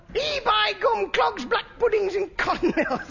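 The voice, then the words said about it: Put-on northern English accent. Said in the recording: “this is a northern accent I'm doing”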